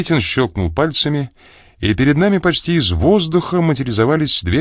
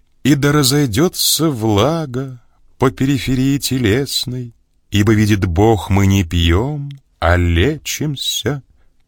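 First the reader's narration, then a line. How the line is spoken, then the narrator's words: Solemn pronouncement. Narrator (Russian): торжественно произнес я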